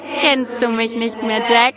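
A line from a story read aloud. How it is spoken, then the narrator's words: Laughing creature. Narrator (German): lachte das Wesen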